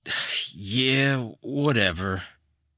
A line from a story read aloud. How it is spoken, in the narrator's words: he slurred, obviously at the limit of his tolerance